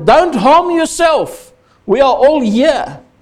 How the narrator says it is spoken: Paul shouted

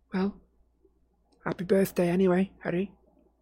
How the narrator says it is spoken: Ginny said in a flat little voice

